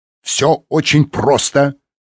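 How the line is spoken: Barked. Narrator (Russian): рявкнул Реми

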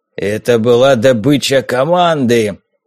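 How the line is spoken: Growl. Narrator (Russian): прорычал Харрис

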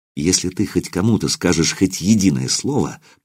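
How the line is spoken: Whisper. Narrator (Russian): прошептал я

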